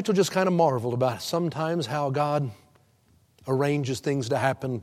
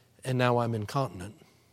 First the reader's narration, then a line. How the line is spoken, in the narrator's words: he said in a quiet voice